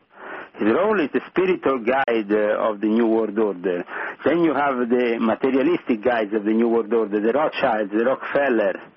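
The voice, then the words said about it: Thick Italian accent. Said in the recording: “he has a thick Italian accent, so you have to pay close attention to what he says”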